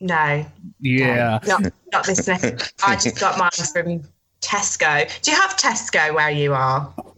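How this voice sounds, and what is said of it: English accent. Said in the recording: “I'm guessing by your accent ... she's talking to us from across the pond over in jolly old England”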